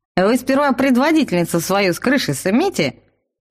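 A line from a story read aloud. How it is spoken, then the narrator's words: Doubtful snort. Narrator (Russian): недоверчиво хмыкнул трактирщик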